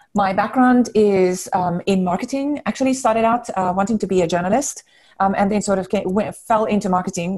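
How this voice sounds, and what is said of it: South African accent. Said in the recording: “The accent that you hear is the signal that I grew up in South Africa.”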